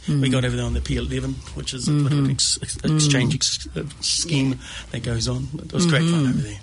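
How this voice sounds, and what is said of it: New Zealand accent. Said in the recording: “Tell by your accent. ... I've managed to get the Kiwi accent back.”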